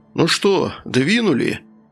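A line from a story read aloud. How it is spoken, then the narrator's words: Said after deep sigh. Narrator (Russian): Оркус, глубоко вздохнув, произнес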